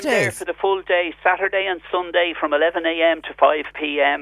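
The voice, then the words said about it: Dublin Irish accent. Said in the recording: “I can tell by your accent, you're a born and bred dub”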